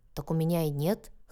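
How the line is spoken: Wry snort. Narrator (Russian): хмыкнул он

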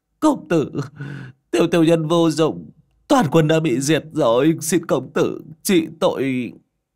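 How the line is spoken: Trembling, weeping. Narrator (Vietnamese): run rẩy khóc

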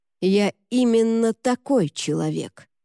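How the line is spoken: Hissed. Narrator (Russian): прошипел Люк

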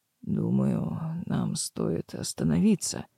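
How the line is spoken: Hoarse, groom. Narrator (Russian): хрипло произнес жених

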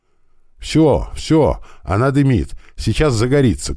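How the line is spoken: Shouting from below. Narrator (Russian): кричал снизу механик

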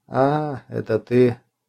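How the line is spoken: Quiet, disappointed. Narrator (Russian): тихо, разочарованно сказал Балавадзе

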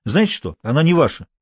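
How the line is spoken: Angry reply. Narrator (Russian): сердито ответил Джон

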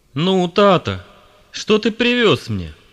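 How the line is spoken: Cheerful question, child. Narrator (Russian): весело спросил любимец семьи

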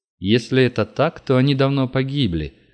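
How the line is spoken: Gloomy. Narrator (Russian): мрачно проговорил Зайцев

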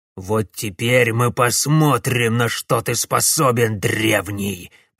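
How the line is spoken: Growling. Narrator (Russian): прорычал Герафраст

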